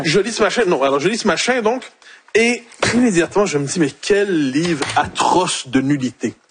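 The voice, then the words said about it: Quebec French accent. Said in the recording (French): “Il a même retrouvé son accent québécois”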